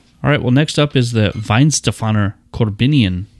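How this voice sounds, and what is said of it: Really bad put-on accent. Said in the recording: “There's my really bad accent.”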